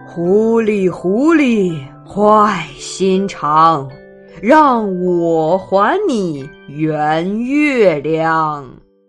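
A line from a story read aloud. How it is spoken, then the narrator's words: Angry roar. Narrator (Chinese): 风爷爷……他生气的吼了起来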